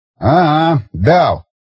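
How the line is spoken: Snort. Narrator (Russian): фыркнул Баграмян

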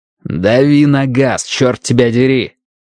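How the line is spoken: Growling. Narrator (Russian): прорычал Страйк Колос Джонсу

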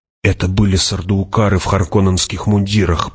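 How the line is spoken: Whisper. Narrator (Russian): прошептала Джессика

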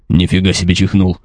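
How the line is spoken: Surprised half-orc grumbling. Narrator (Russian): удивленно проворчал полуорк

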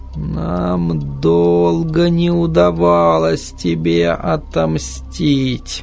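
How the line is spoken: Barely audible. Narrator (Russian): еле слышно проговорила она

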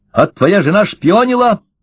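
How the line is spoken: Sharp. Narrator (Russian): сказал Ложкин резко

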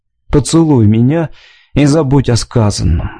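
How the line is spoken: Sigh. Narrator (Russian): вздохнул Джон Оден

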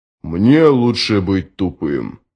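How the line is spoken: Grumbled. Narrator (Russian): проворчал Джот

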